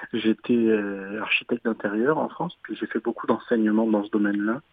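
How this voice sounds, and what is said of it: French from France accent. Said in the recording (French): “vous l'entendez à mon accent, je suis français.”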